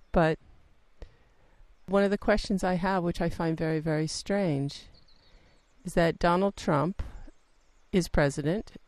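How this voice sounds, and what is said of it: American accent. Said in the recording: “I'm an American, I think everybody knew that from my accent”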